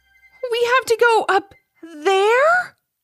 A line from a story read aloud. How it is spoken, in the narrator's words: Ivy exclaimed